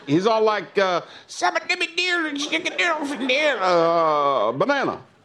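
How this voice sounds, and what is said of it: Imitates a Minion cartoon voice. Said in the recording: “good minion impression”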